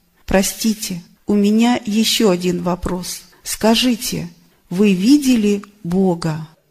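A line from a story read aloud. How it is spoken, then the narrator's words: Calm, matter-of-fact. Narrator (Russian): Ответ был дал спокойно и даже обыденно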